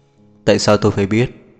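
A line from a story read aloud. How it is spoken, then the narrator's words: Soft laugh. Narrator (Vietnamese): Lý thương yêu cười khẽ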